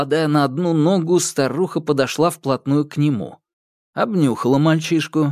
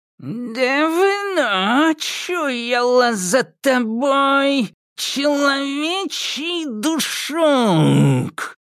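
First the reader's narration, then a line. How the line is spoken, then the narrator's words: Quiet eerie old woman's drawl. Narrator (Russian): Неожиданно тихим, жутким голосом протянула старуха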